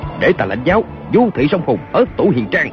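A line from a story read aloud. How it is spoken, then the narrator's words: Shout. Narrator (Vietnamese): Kiều Phong quát lên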